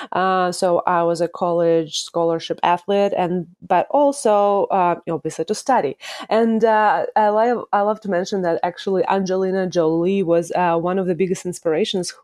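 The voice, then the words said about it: Russian accent. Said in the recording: “the accent part comes from Russia. I'm originally from Russia, from Moscow”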